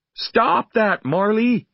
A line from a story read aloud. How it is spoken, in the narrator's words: I cried